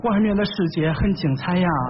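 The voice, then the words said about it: Put-on Henan regional accent. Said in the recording (Chinese): “口音 ... 哦，河南是吧？”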